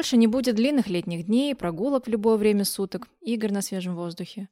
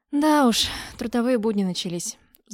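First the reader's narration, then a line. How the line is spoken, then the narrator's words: Sigh. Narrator (Russian): вздохнула я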